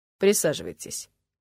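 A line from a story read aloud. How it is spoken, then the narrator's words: Even, level voice. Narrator (Russian): сказал полковник ровным голосом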